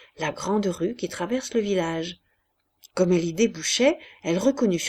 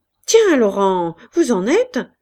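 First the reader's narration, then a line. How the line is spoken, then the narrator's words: Surprised exclamation. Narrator (French): s'écria Wes, surpris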